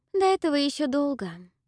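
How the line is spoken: Sighing. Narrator (Russian): вздохнула Салина

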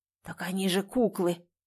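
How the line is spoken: Hoarse man. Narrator (Russian): прохрипел мужчина

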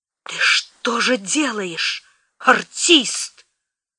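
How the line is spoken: Through gritted teeth, barely restrained. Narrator (Russian): Мария, еле сдерживаясь, процедила

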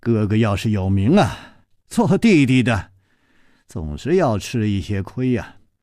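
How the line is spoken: Sighing after a pause. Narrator (Chinese): 楚留香沉默了一会儿，才叹气了一声说

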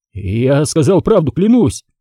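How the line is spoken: Howling. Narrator (Russian): взвыл он

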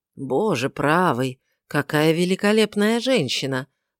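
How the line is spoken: Mutter under breath. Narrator (Russian): бормочет себе под нос Бо Лавлейс

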